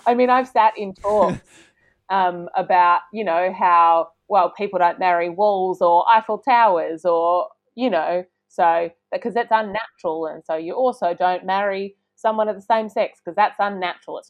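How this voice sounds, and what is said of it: Put-on Australian bogan-style male accent. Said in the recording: “I see you slipping into a ... Unique Australian accent there ... that is just my man accent”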